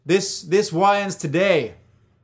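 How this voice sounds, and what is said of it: Leonardo DiCaprio impression, New York accent. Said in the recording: “what should I do for Leo? ... That's a New York accent”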